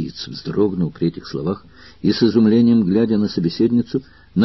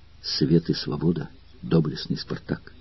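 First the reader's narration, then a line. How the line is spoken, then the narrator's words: Girl whispering. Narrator (Russian): девушка прошептала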